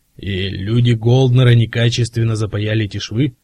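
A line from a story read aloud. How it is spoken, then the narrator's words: Quiet menacing growl. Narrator (Russian): спросил Кразье голосом, напоминающий тихое угрожающее рычание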